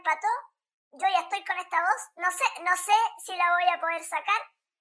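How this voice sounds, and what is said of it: Squeaky squirrel-like voice. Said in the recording (Spanish): “se te escucha con voz de ardilla, me gusta esa voz ... ponerte la voz normal”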